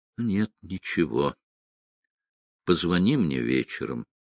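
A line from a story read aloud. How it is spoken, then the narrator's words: Tired. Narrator (Russian): устало произнесла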